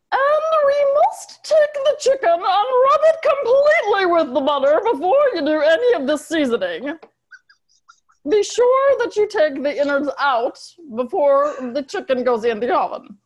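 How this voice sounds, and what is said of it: Julia Child impression. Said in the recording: “Julia Child impersonation ... I do a good impersonation of her ... your impression's hilarious. So here's Julia.”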